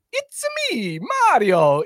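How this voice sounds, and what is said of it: Mario voice with Italian accent. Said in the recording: “let's hear your Mario ... I went for Mario with an accent. ... That was solid.”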